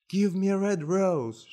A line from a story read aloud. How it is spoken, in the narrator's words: cried